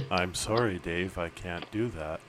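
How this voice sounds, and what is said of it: Robotic voice imitating HAL 9000. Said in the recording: “robot voice that sounded like, what was it, HAL 9000 from the movie 2001”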